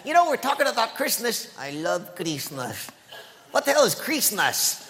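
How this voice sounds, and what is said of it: Puppet character speaking with an accent. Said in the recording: “Are you making fun of my accent?”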